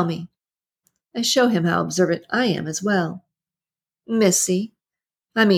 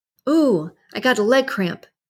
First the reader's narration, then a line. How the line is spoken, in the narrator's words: I cried out, trying to sound desperate